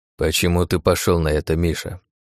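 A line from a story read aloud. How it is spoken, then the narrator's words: Quiet old man question. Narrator (Russian): тихо спросил дед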